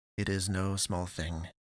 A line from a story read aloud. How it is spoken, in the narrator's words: Ruhr answered, with a sizable, acknowledging breath, and muttered